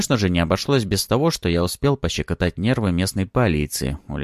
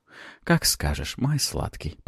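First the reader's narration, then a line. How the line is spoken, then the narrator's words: Purring. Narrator (Russian): промурлыкала Суккуба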